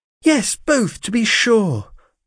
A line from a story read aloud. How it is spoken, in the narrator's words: cried Rose